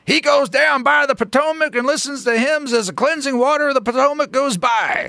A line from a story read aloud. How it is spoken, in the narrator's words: screeched Carville